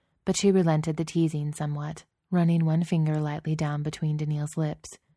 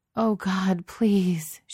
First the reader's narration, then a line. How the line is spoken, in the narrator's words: she moaned